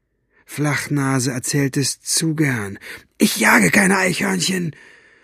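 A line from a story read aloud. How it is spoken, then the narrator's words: Hoarse voice. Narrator (German): Busters Stimme klang heiser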